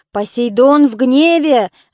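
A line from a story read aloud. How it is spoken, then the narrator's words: Stout man shouting. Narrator (Russian): закричал дородный Эпей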